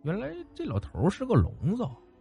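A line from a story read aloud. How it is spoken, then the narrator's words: Cautious mutter. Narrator (Chinese): 张二狗小心的嘀咕了一句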